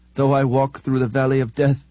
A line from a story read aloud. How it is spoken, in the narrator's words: the deacon whimpered